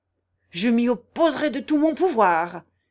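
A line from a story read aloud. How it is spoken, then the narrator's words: Contemptuous priest exclaiming. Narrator (French): s'écria le curé qui ne put contenir un geste de mépris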